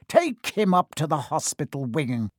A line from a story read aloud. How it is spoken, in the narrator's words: Spate spat at Seamus